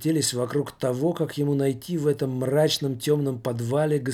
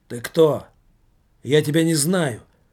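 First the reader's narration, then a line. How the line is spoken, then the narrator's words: Rough blurt. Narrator (Russian): грубоватым тоном выпалил Иннокентий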